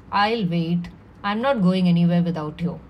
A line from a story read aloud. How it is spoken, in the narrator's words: He looked at me calmly and said